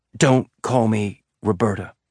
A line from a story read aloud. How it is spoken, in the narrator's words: Bobby said so quietly that she could barely hear herself